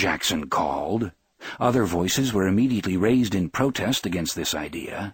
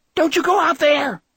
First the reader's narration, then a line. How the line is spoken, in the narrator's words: she screamed